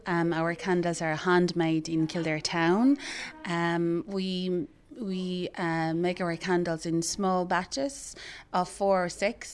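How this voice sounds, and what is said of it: Slight Irish Kildare twang. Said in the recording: “There's definitely a bit of a Kildare twang in the accent there”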